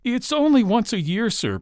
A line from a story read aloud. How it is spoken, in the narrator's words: pleaded Bob